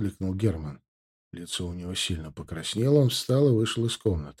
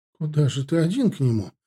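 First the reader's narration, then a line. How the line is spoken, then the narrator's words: Bewildered, near tears. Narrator (Russian): Растерянно, чуть не плача, спросила она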